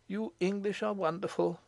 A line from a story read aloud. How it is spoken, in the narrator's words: he murmured